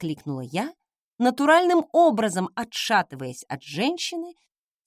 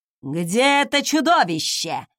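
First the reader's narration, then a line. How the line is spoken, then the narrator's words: Angry bark. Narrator (Russian): рявкнула она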